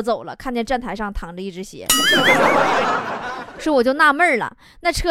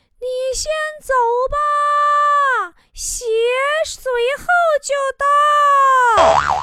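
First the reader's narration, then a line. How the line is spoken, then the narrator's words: Shouting. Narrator (Chinese): 乘务员大喊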